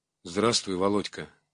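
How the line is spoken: Trembling voice. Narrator (Russian): сказал дрогнувшим голосом

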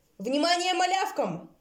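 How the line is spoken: Shouting boar. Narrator (Russian): крикнул старшеклассник кабан

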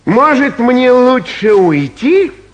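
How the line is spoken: Loud, voice trembling with hurt. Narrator (Russian): громко спросил Васька, и голос его дрогнул от обиды

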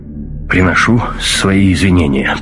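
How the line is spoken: Grumbled mutter. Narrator (Russian): пробурчал баварец

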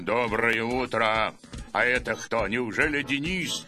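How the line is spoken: Terrible deep bass. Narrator (Russian): сказал ужасным басом

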